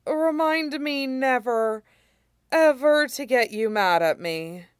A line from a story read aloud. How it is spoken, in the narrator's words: Shurong said faintly